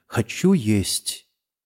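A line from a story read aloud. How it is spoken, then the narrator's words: Trembling voice. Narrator (Russian): говорит дрожащим голосом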